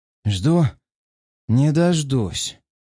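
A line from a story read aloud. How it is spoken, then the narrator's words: Strained, in pain. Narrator (Russian): выдавил из себя я, переживая болевой шок в сознании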